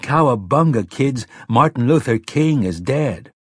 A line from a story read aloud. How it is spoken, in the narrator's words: Why is Buffalo Bob Smith of the Howdy Doody Show yelling